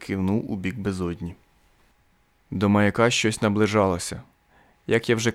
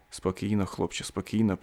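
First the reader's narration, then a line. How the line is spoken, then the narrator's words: Whispering. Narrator (Ukrainian): прошепотів Макдан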